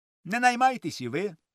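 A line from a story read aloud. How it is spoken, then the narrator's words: Cheerful. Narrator (Ukrainian): промовив він весело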